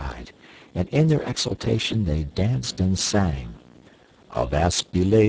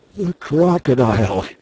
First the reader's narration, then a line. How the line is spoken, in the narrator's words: he gasped